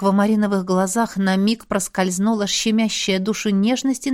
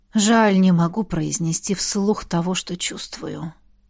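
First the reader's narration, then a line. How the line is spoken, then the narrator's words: Whispering. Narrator (Russian): прошептал император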